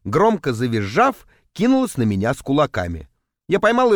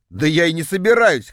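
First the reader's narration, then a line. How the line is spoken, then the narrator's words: Snorting. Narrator (Russian): хмыкнул я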